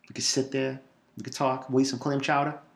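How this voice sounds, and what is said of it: Boston accent. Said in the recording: “a real man with a real accent ... I'll talk in the Boston accent ... Because of the Boston accent”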